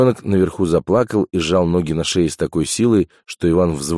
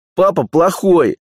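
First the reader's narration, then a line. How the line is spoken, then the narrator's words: Yell. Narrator (Russian): заорала Иванка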